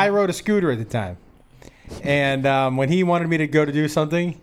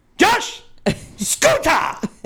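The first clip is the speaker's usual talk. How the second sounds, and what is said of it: Screamed imitation, Israeli-accented boss. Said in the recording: “Israeli boss ... when they talk to you, it sounds like they're screaming in your face ... he would scream”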